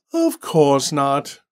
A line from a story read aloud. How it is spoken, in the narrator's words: Randall sighed